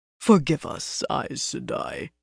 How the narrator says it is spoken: he murmured

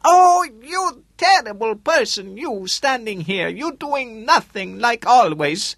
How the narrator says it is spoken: The woman, broad, middle-aged, suddenly began to yell at him in a high voice

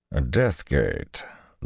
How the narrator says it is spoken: Loghain said, his voice tinged with distaste

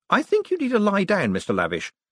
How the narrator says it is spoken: said Moist cheerfully

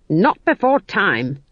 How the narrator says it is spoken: she snapped

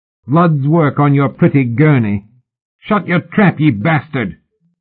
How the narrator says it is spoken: young Tom burst out, his voice high with rage and pain

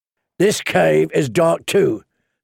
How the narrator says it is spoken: said the hound

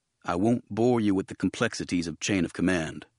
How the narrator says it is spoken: Mace said

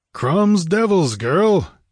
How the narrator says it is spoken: he grunted

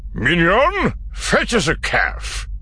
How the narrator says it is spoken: barked

